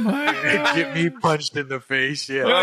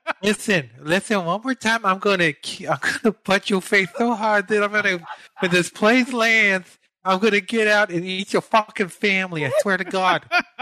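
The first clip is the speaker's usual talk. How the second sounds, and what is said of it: Imitates another person's voice. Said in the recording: “great Mike Tyson impersonation”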